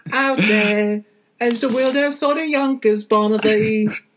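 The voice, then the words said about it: Convincing put-on accent. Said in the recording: “Oh, good accent. Nice.”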